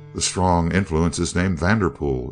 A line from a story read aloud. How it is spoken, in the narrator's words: Easterly dryly remarked